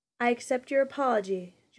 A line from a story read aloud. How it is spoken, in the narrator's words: Jonas replied shakily